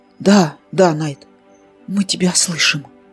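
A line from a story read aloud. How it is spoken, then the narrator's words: Tired voice. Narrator (Russian): Уставшим голосом произнес Кир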